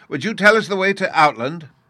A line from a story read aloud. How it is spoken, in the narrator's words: he proceeded in a louder voice